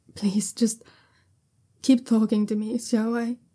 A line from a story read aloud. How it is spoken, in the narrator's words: Jiaolan says shakily